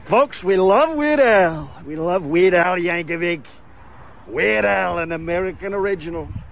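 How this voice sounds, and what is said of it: Donald Trump impression. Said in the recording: “the only good Trump impression in the history of the internet... The only person to ever decently do a Trump impression... wonderful Trump impersonation because he destroys it”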